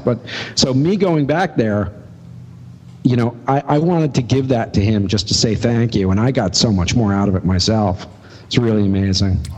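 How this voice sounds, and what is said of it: Choked-up, emotional voice. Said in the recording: “getting choked up about sign painting once again ... if you don't get choked up”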